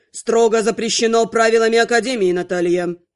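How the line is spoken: Icy curt master. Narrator (Russian): Ледяным голосом отрезал магистр

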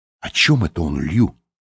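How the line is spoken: Whispered. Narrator (Russian): прошептал Лэнгдон

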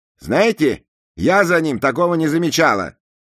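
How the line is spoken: Angry. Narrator (Russian): сердито ответила Джексон

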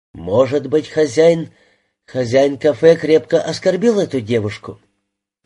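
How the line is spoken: Flat colorless voice. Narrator (Russian): бесцветным голосом произнесла Рита

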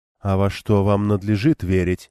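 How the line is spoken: Calm addition. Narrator (Russian): добавила также спокойно Кориане

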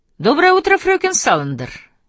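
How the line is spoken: Cheerful greeting. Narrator (Russian): весело поздоровался

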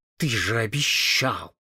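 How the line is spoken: Angry hiss into ear. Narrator (Russian): она, сверкая точно разгневанный бриллиант, шипела ему в ухо

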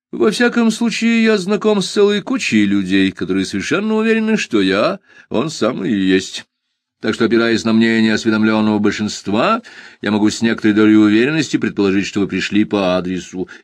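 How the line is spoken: Cheerful. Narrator (Russian): весело ответил

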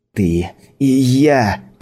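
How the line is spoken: Growled. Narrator (Russian): прорычала Скайла

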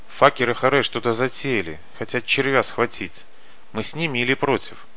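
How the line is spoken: Fast whisper. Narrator (Russian): Быстро зашептал Каша

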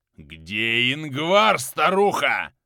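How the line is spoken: Fearful growl. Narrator (Russian): Прорычал Кёниг, явно боявшийся страшной ведьмы

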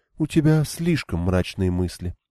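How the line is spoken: Gloomy, dejected. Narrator (Russian): уныло проговорила Элейн

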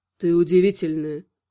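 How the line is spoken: Husky male voice. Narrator (Russian): произнес он, от знакомой хрипотцы в голосе мужчины

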